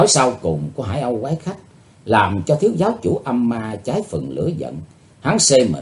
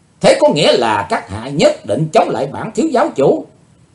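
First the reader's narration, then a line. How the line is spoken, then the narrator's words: Enraged loud shout. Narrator (Vietnamese): Hai mắt của thiếu giáo chủ âm ma đỏ dời dợi như lửa, hắn quát to lên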